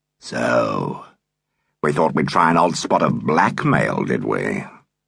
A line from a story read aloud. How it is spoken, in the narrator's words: His voice had thickened